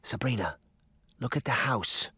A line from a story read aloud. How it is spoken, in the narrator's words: Daphne whispered